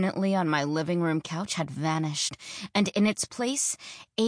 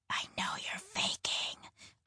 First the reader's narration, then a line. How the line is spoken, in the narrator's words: whispered, trying to call his bluff